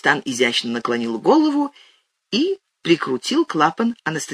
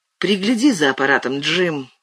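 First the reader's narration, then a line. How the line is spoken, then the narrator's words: Wheezing. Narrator (Russian): просипел он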